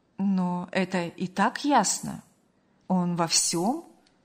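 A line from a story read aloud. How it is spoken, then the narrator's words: Calm, restrained mother. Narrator (Russian): спокойно и сдержанно заметила мать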